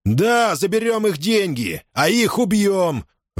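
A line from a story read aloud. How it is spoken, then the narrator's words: Furious shout. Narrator (Russian): в ярости выкрикнул Махди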